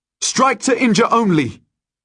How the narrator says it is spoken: I shout

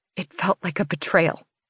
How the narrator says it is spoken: I whisper

